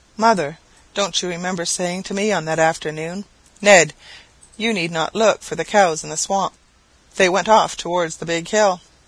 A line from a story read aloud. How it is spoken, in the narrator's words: The delightful mother exclaiming